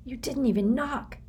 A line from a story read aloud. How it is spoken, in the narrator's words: whispered in an exasperated tone